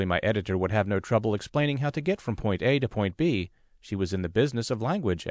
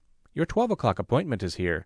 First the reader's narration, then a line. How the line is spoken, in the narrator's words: she reported in a clipped, professional tone